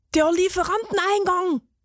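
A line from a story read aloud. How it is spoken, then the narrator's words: Excited cheese grater calling. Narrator (German): rief die Käsereibe aufgeregt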